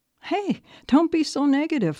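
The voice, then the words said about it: Fake positive voice. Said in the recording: “in my fake positive voice.”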